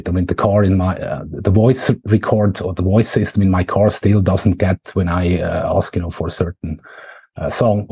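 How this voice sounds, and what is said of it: Swiss-accented English. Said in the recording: “my Swiss accent”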